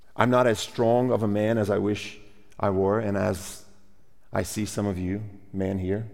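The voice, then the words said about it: Speaks with a foreign accent. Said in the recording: “I have an accent and you don't.”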